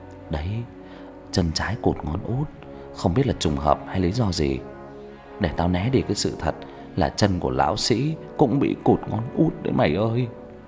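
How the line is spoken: Low quiet voice. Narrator (Vietnamese): Thằng Đạt nhỏ giọng

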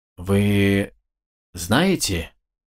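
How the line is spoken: Strained, forced words. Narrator (Russian): выдавил он

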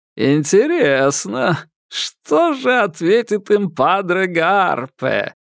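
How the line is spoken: Mocking giggle. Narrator (Russian): Переводчик глумливо хихикнул

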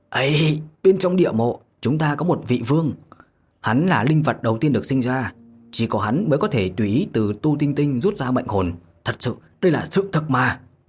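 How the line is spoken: Desperate scream. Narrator (Vietnamese): Mộ Dung Vân gào lên

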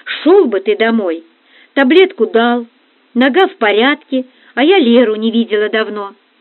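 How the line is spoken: Calm, level voice. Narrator (Russian): вдруг сказала она совершенно спокойно, не повышая голоса

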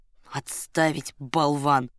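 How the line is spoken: Gruff grumbling. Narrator (Russian): пробурчал багровый герой

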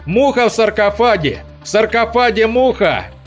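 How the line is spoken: Yelled. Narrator (Russian): Лихтенштейн заорал

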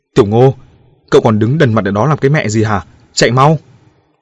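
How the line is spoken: Shouting urgently. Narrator (Vietnamese): Lão Dương gào lên

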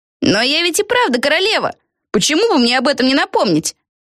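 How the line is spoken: Shouted from above. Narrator (Russian): крикнула Пегги откуда-то сверху

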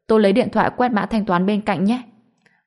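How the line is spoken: Laughing. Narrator (Vietnamese): Tôi bật cười

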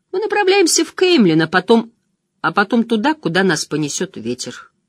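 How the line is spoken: Calm interruption. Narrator (Russian): спокойно перебил Мэтта Том

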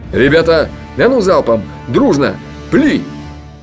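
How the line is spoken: Shouted. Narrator (Russian): крикнул

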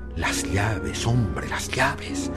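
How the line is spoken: Murmur. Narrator (Spanish): Me sorprendí murmurando

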